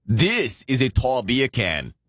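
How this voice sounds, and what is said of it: Poor fake Australian accent. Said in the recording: “that terrible Aussie accent”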